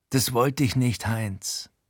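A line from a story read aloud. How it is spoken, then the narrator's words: Plain. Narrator (German): sagt Frankie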